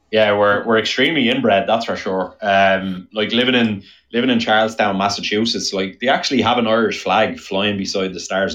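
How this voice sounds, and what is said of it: Irish accent. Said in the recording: “The Irish accent ... as soon as somebody hears my accent here”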